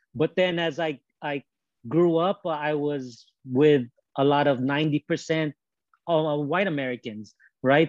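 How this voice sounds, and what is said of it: Mixed gangster and American accent. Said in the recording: “my own kind of accent ... a mixture of maybe, you know, gangster type attitude, style, accent with kind of American in a way”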